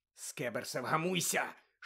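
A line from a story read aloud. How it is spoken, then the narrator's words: Hissing. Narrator (Ukrainian): шипів Рон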